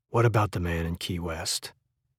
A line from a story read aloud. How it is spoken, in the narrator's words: Softly, barely above a whisper, said